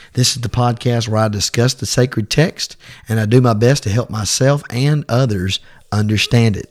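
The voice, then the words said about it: Sick, rough-sounding voice. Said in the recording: “my voice is not like it normally is... I've had a cold this for the last week, and I'm just now getting where I can talk good again”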